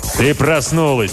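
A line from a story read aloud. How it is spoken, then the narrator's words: Booming bass. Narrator (Russian): прогремел бас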